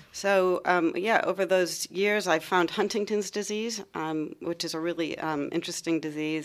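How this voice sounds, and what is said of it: Slight American accent. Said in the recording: “might notice a bit of an accent ... I come from Ohio”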